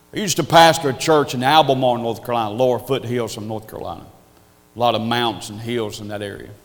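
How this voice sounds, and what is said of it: Southern Appalachian hillbilly accent. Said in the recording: “you can tell by my accent, I have a hillbilly accent from the hills of North Carolina”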